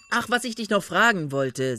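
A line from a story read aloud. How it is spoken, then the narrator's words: Loud man's voice. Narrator (German): sagte der Mann laut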